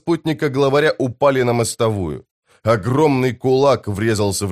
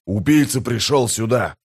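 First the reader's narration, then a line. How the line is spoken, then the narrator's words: Growling. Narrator (Russian): прорычал новоприбывший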